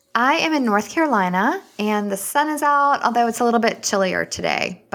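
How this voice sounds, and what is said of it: Slight Southern US accent. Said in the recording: “I think I hear a little bit of that accent in there.”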